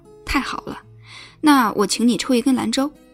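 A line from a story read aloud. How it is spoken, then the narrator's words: Hearty laughing. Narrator (Chinese): 他哈哈笑着 说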